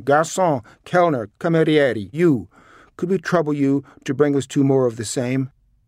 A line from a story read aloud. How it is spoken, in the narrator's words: began shouting again